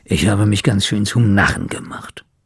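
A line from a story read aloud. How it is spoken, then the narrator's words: Grumbled. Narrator (German): brummte Schnorres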